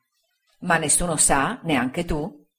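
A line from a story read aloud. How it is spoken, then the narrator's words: Plain. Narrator (Italian): egli rispose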